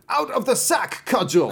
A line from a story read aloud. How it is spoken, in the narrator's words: he cried